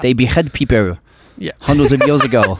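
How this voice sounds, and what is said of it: Bad put-on French accent. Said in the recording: “That's the worst French accent ever... I'll work on that accent.”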